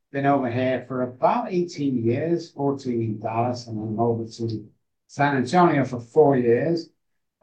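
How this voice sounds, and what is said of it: Manchester English accent. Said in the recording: “as you can tell from my accent, I'm from Manchester, UK”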